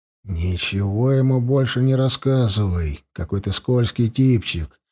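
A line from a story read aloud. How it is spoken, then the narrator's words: Whisper in ear. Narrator (Russian): шепнул я Эрли на ухо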